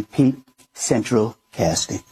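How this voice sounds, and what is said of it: Donald Trump impression. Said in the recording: “do a Trump impersonation ... that wasn't bad, but it wasn't great either”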